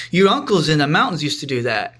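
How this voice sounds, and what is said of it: Imitated Korean accent. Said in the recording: “a little in her Korean accent”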